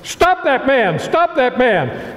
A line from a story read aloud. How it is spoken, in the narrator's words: Major Rathbone came to the edge of the balcony and shouted